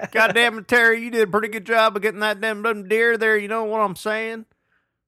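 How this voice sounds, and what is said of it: Put-on Southern accent. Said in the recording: “It's a pretty good Southern accent.”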